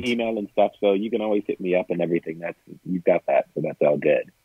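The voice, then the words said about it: Australian accent. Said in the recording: “You've got a pretty good Australian accent, actually... You have a better Australian accent than me.”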